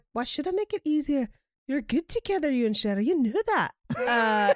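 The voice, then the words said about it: Put-on Scottish accent. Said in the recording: “really good Scottish accent ... is really good”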